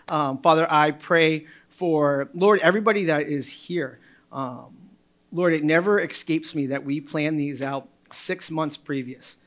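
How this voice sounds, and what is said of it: Hoarse strained speaking voice. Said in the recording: “sustain my voice as it's hoarse”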